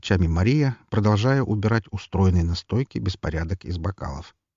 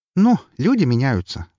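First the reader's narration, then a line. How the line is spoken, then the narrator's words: Wry snort. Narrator (Russian): хмыкнула Вика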